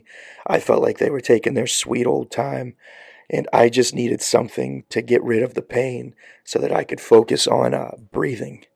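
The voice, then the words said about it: Hoarse, scratchy recovering voice. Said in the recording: “sorry about my voice. It's working its way back. So if it gets a little scratchy”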